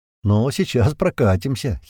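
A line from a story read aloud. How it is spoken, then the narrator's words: Giggling. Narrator (Russian): хихикнул Слива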